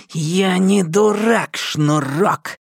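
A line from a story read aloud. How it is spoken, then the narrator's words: Hissing. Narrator (Russian): прошипел Галли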